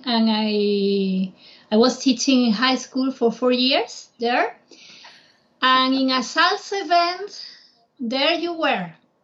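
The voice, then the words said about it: Spanish accent. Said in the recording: “You can tell because of my accent, I'm from here, from Spain.”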